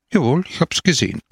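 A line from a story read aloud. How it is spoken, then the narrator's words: Plain. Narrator (German): antwortete Don Camillo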